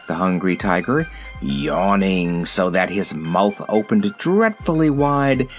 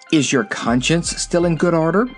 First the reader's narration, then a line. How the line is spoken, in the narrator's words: asked Dorothy anxiously